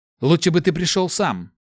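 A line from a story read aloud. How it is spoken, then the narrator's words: Sharp blurted words. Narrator (Russian): резко выпалил Март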